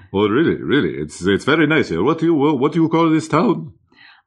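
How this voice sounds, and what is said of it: Hungarian accent. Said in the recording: “where are you from? I love your accent. ... Hungary.”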